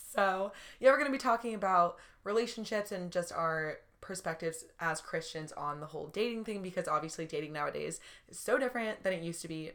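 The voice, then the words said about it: Slightly raspy, sore-throat voice. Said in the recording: “I'm like kind of mid sore throat right now... My voice is a little raspy”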